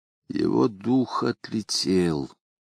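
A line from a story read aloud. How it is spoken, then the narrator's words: Quiet and sad. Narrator (Russian): сказал Зверобой тихим и грустным голосом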